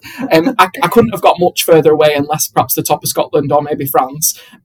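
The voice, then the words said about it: Bolton English accent. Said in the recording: “if you can understand my accent, I'm from Bolton”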